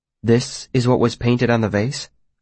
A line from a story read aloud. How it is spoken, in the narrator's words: I asked